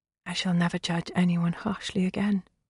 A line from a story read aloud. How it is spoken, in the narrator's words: she whispered